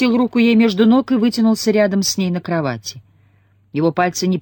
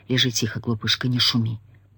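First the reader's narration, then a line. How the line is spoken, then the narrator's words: Whispered. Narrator (Russian): прошептал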